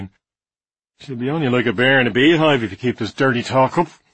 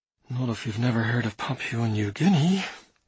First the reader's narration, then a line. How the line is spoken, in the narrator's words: I muttered